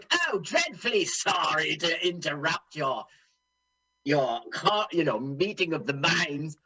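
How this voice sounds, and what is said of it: Imitates another person's voice. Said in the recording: “are you doing your Terry Thomas impersonation? ... Yeah”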